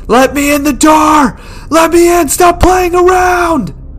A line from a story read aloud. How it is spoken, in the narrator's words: He's screaming